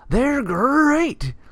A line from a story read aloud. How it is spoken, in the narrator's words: He yelled